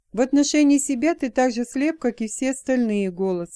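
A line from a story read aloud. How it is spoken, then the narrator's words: Plain. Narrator (Russian): сказала Джейн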